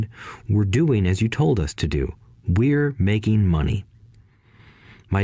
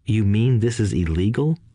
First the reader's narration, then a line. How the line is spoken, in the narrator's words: asked Mike in a quivering voice